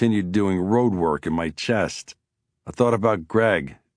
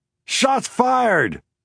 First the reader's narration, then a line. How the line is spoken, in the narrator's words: I screamed into my phone